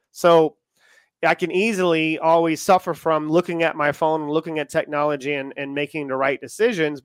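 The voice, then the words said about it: American accent. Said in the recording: “if you can tell from my accent, I am American”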